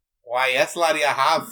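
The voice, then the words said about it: Scotty impression. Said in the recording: “my Scotty impression”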